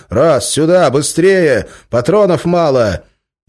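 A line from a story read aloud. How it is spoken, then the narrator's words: Shouted. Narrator (Russian): Один из стреляющих крикнул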